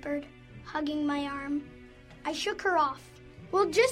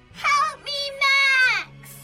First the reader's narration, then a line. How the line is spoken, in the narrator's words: She screamed